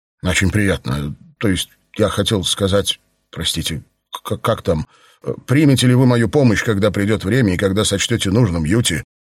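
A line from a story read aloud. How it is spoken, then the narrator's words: Trembling babble. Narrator (Russian): оборотень пролепетал дрожащим голосом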